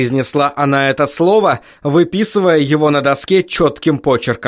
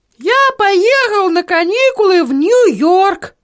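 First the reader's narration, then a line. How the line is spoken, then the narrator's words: Thin voice. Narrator (Russian): тонким голосом произнес Эдвард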